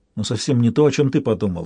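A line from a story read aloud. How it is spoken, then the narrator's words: Soft, smiling. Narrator (Russian): мягко улыбнулась Янтарь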